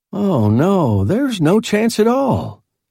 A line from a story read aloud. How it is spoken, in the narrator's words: he asserted cheerfully